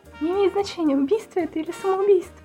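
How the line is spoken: Timid babble. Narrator (Russian): пролепетала Флаттершай

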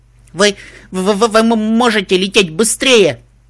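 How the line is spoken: Shouted in humiliated exasperation. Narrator (Russian): крикнула ментатка, когда холод и чувство унижения переполнили чашу терпения

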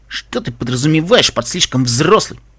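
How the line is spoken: Grumbling. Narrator (Russian): проворчал Каламити

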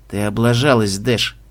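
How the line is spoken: Flat, emotionless. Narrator (Russian): говорит Алекс бесстрастным голосом

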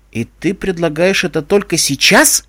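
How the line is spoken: Angry question. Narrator (Russian): зло спросила Дэши

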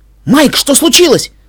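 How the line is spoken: Barking, breaking into shout. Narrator (Russian): Срываясь на крик, рявкнула Твайлайт

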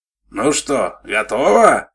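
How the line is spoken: Shout. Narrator (Russian): крикнул он ей

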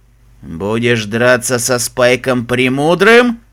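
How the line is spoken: Dragon's growl. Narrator (Russian): прорычал черный дракон

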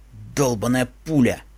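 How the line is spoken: Irritated mutter, stallion. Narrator (Russian): буркнул жеребец, в раздражении

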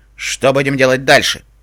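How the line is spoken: Sharp question. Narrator (Russian): резко спросил узурпатор

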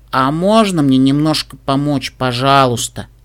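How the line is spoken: Sighing. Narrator (Russian): снова вздохнула

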